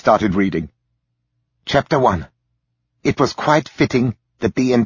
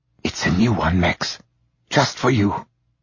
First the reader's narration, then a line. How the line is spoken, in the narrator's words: she whispered